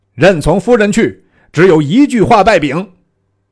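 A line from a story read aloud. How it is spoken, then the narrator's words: Calling out from afar. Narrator (Chinese): 赵云沿江赶叫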